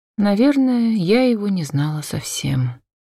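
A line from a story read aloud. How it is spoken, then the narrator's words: Quiet reply. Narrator (Russian): тихо ответила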